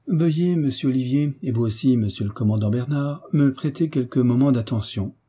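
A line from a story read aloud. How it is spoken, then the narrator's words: Plain. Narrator (French): dit le marquis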